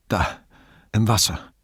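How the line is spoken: Breathless panting. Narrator (German): keuchte Brunetti

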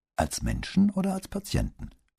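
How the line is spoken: Asked back calmly. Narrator (German): fragte mit ruhiger Stimme zurück

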